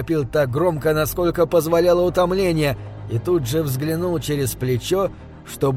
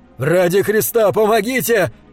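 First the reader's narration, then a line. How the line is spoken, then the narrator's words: Desperate shout. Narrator (Russian): кричал он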